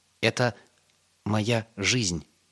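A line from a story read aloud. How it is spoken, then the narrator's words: Plain. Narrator (Russian): ответил Йосла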